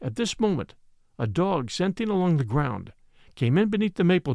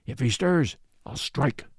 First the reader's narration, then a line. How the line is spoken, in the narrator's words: muttered the other